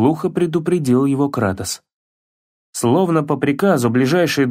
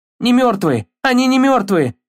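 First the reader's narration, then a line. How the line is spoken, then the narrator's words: Panicked shout. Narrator (Russian): закричал Атрей в панике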